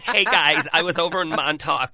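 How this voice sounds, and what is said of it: Mock American accent, like Friends. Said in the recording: “they come back like they're in an episode of Friends”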